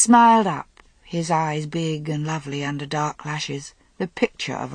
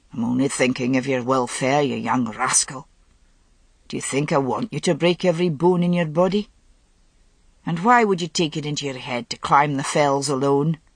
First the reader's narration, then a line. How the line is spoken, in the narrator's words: Agravain grumbled